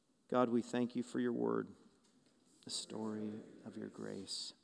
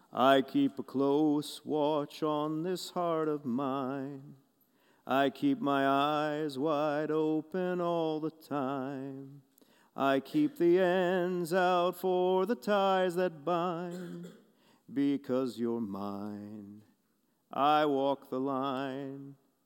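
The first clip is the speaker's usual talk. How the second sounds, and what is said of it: Sung imitation of another person's voice. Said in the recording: “my best Johnny Cash impersonation”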